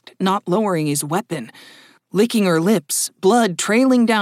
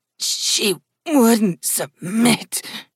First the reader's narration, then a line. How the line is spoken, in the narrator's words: groaned Haley, her left hand pressed to the massive wound in her side